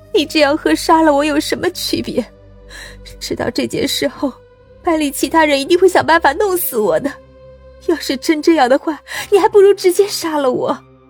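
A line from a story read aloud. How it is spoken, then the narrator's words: Desperate pleading. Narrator (Chinese): 张倩苦苦的哀求道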